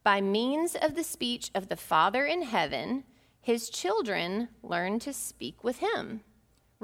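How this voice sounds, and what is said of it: Southern American accent. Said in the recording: “I have a southern accent because my mother is from Tipton County.”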